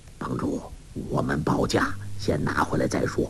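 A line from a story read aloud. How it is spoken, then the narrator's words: Low voice. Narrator (Chinese): 彭长老低声说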